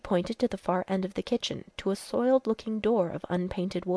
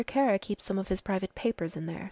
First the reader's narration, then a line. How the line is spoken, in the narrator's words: said the girl quietly